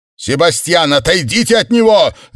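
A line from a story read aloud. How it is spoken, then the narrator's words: Shouting. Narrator (Russian): закричал Сэм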